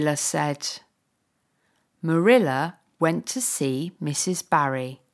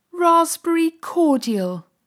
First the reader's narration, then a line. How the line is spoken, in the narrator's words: cried Anne